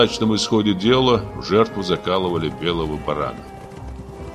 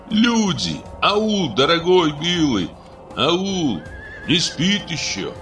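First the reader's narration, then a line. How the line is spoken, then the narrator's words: Shouting. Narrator (Russian): кричал Ербол, подъезжавшим Шике и Баймагамбету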